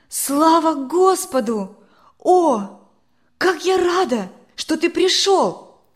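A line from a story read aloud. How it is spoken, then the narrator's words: Joyful exclamation. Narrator (Russian): воскликнула она, увидев его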